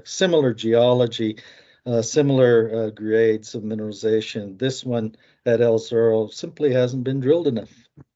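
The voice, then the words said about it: American accent. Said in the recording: “that's the American accent of yours”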